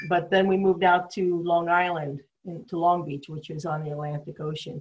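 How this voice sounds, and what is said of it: Slight New York accent. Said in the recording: “my accent, it's a little New York”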